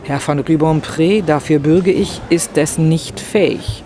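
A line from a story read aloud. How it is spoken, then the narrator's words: Plain. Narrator (German): sagte Rastignac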